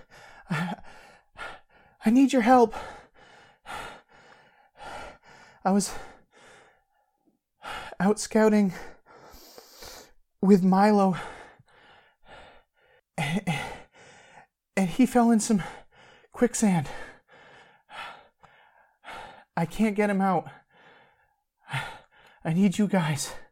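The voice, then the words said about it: Breathless, out-of-breath character voice. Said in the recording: “out of breath.”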